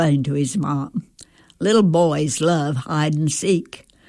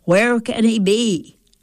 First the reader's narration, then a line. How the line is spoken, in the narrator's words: I'd ask loudly